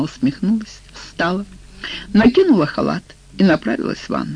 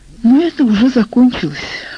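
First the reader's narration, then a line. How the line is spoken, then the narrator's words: Sighing. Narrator (Russian): вздохнула она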